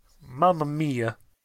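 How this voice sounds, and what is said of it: Put-on Italian accent. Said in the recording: “Italian accent.”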